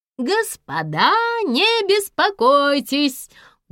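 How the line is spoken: Loud, plump man. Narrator (Russian): громко проговорил толстячок

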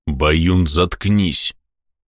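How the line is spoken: Growled. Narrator (Russian): прорычал десятник Горыня

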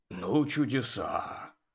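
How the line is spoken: Grumbling. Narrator (Russian): проворчал Жак

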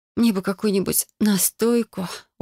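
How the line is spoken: Moaning. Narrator (Russian): простонала

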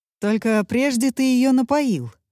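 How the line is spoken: Snorting. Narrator (Russian): хмыкнул Гектор

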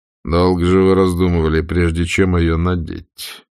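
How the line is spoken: Amused grumble. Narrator (Russian): буркнул Ред, но черные глаза его смеялись

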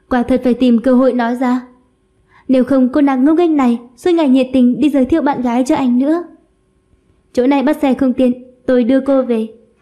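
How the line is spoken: Sighing. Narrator (Vietnamese): Minh Diệp cũng thở dài

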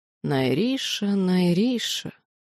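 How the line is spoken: Drawn-out, special intonation. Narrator (Russian): Он как-то по-особому протянул мое имя

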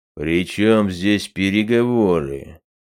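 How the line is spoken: Gruff mutter. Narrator (Russian): буркнул король

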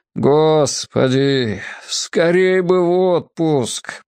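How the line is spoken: Miserable groan. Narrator (Russian): простонал несчастный наставник

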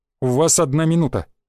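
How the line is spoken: Calm stranger. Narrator (Russian): также спокойно произнес незнакомец

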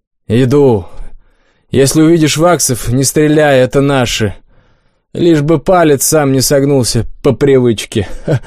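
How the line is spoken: Laughing. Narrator (Russian): хохотнул стрелок

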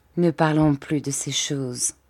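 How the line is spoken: Plain. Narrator (French): dit-elle

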